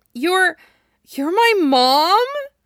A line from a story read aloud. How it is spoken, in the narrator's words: Naruto asks, and his voice wavers